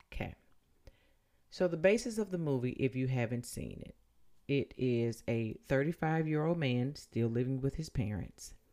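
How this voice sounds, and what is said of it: Country accent. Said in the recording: “my country accent will make it sound like I'm saying lunch”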